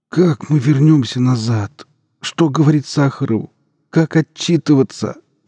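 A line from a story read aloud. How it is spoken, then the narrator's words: Moaning. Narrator (Russian): простонал ученый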